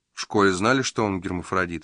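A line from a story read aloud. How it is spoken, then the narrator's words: Plain. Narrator (Russian): спросил он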